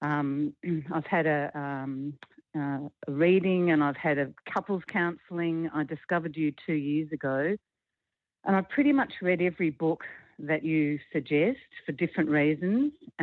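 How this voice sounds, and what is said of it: Australian accent. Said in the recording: “I'm calling from Australia with my funny accent.”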